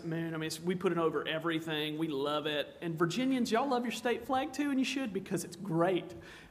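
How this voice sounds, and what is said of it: South Carolina Southern accent. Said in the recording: “I'm from South Carolina ... maybe you picked it up from my accent”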